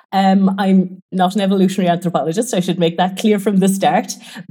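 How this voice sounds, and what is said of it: Irish accent. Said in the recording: “probably tell by the accent, I'm Irish”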